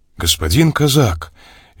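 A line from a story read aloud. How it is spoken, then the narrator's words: Polite tone. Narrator (Russian): вежливым тоном обратился к нему я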